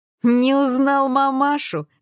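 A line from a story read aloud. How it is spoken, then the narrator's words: Laughing. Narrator (Russian): рассмеялся Гриша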